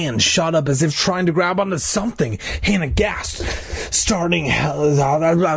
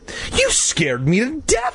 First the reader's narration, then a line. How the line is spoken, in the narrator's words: Hannah cried